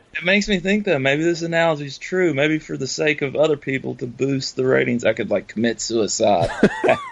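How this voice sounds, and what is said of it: Slight Southern American accent. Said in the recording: “you guys are both, have a bit of a Southern accent”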